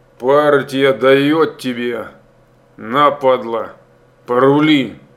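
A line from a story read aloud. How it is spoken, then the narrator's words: Through gritted teeth. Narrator (Russian): Процедил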